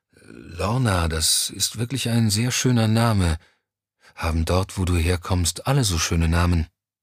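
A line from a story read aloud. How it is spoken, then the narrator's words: Sleepy voice. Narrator (German): Mit schläfriger Stimme sagte Johnny schließlich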